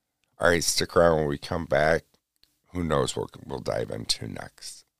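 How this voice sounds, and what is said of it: Dry voice. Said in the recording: “my voice keeps sounding so dry ... it's dry and uh, I'm just getting over a cold.”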